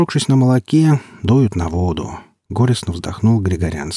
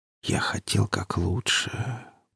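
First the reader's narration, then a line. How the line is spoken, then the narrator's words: Tearful whisper. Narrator (Russian): прошептал царевич, чтобы скрыть слезы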